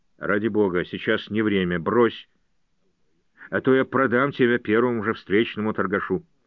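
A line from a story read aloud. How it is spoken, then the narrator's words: Grumbling. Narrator (Russian): Джордж проворчал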